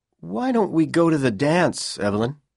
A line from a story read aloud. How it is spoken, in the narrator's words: Powell said nervously